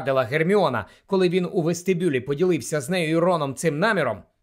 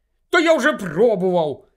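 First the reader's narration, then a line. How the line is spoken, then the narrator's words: Angry snap. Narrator (Ukrainian): сердито огризнувся Гаррі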